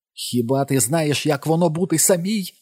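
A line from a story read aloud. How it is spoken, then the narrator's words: Shout. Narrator (Ukrainian): закричала Ліз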